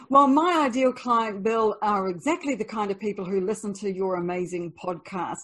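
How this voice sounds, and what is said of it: New Zealand accent. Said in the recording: “her native New Zealand, which according to Big Seven Travel has the world's most sexy accent ... hearing that accent”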